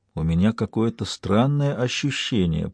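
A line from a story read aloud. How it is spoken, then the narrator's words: Whisper. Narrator (Russian): прошептал он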